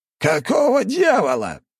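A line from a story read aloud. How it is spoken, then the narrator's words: Roared. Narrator (Russian): взревел тот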